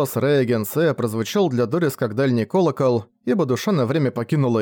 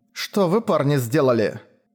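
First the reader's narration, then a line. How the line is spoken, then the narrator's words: Firm voice. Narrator (Russian): спросила Дорис уже твердым голосом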